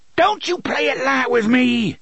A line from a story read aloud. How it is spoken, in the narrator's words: he shrieked